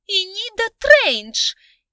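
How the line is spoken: Shrill, piggish squeal. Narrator (Russian): И голос у нее был под стать поросячьему с извечно проступающими в нем визгливыми нотками

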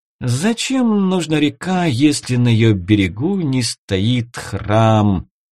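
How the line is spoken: Singsong chant. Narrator (Russian): Нараспев произнесла Гливия

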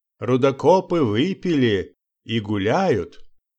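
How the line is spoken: Cheerful old man. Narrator (Russian): продолжал старик веселым тоном

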